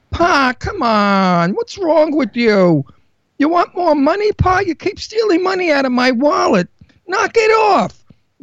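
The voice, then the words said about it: Exaggerated Brooklyn New York accent. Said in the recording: “I have a Brooklyn accent. ... Now, if that's not Brooklyn, New York, what the fuck is?”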